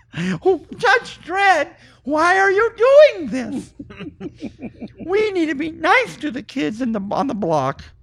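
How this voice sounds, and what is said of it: Mickey Mouse cartoon voice. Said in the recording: “What was that? ... That was Mickey Mouse.”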